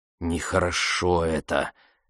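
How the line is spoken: Muttering. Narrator (Russian): бормотал Блейн

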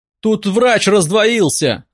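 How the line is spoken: Desperate yell. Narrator (Russian): заорал бедолага

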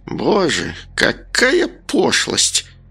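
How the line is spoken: Groaned. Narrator (Russian): простонала странница

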